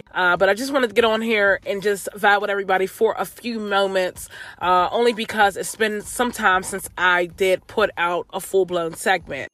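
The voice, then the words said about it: Voice slightly off, not fully recovered. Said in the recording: “my voice is off just a bit. I'm literally just getting over a cold. I feel like my voice has just not fully recharged. So if I do sound a bit off”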